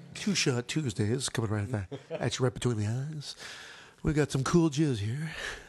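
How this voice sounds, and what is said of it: Smooth cool radio DJ voice. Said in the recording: “gone to his DJ voice. It's like the cool menthol stylings”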